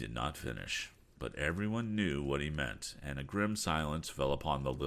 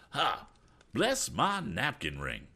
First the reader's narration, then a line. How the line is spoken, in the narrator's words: cried Mr